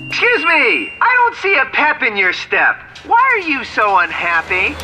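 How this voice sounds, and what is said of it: Screaming at strangers. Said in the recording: “Why are you screaming at strangers?”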